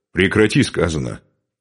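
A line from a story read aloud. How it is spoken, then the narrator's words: Harsh bark. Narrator (Russian): рявкнул он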